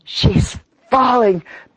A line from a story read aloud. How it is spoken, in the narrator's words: panted Freckles